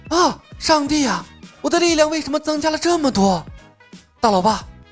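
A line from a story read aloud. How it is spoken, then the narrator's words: Excited exclaiming. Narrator (Chinese): 她忍不住大呼小叫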